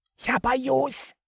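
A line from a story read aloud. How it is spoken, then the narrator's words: Whisper from below. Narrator (Russian): прошептал он откуда-то снизу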